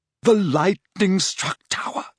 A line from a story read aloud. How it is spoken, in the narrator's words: she whispered